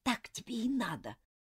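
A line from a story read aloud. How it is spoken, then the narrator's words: Whispered. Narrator (Russian): прошептала она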